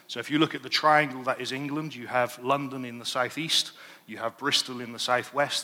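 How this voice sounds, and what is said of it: English Bristol accent. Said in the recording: “Originally, I'm from a town in England called Bristol... That's why I have an accent that may need translating into English”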